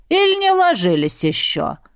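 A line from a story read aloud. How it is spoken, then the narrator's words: With a snort. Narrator (Russian): Добавила, хмыкнув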